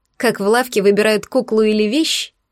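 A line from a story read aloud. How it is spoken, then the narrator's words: Wry snort. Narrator (Russian): Хмыкнула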